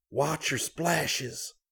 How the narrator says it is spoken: Scotty whispered

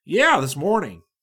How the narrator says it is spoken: Nast said

